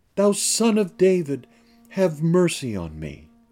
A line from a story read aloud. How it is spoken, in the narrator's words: But he cried the more a great deal